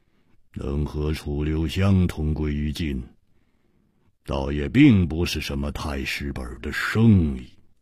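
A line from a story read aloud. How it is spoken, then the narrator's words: Cold. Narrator (Chinese): 黑袍客冷冷地说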